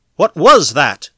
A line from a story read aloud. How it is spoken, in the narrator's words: Foulon … breathing harshly